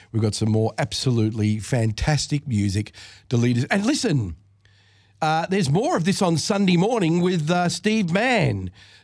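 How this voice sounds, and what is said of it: Congested voice with a cold. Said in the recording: “you can hear that I've got a bit of a cold”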